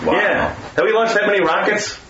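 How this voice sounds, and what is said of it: Rochester accent. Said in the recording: “you can hear my Rochester accent coming out. Rockets.”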